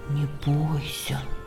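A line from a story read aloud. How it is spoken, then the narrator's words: Whisper. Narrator (Russian): прошептал он ему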